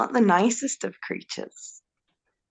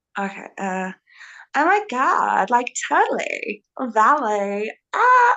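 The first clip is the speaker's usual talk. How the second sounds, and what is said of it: Put-on American valley girl accent. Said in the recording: “do your version of an American accent ... my impersonation of a valley girl”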